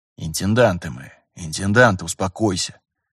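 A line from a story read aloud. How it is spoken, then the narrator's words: Muttered. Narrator (Russian): буркнул Терентьев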